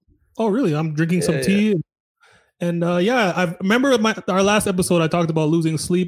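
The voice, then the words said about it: Congested, sick-sounding voice. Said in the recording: “I'm getting over a cold right now. That's what my voice is like.”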